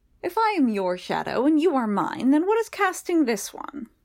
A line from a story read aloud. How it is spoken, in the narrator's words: Vinculus sounded as odd as Childermas had ever heard him, but his usual mocking tone still managed to undercut it